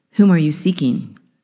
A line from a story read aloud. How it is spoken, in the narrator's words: Jesus calmly asks